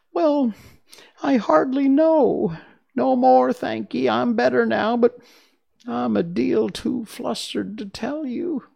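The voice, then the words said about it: Feeble, squeaky little character voice. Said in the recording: “a little, feeble, squeaky voice”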